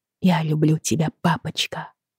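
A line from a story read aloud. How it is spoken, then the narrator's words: Peaceful whisper. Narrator (Russian): прошептала она, закрыв глаза, и почувствовала умиротворение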